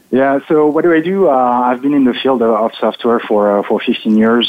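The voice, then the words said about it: French accent with American influence. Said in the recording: “I'm French... my accent is probably uh, coming also from my wife because I'm married to an American”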